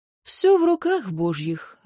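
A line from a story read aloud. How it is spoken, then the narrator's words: Sigh. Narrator (Russian): вздохнул бородач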